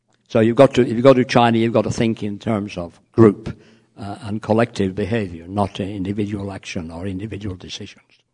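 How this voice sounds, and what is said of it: Slightly hoarse voice. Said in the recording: “I'm getting a bit hoarse.”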